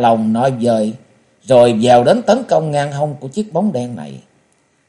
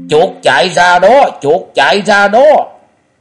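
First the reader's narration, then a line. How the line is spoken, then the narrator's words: Loud excited shouting. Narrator (Vietnamese): Minh giáo Song Long tức thì reo lên inh ỏi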